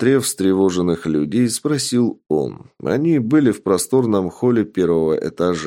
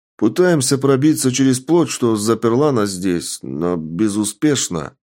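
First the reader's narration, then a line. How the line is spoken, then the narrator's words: Plain reply by man. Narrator (Russian): ответил мужчина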